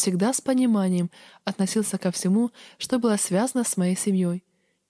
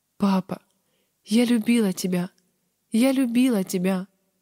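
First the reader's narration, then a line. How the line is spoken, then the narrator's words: Sobbing. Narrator (Russian): всхлипывала я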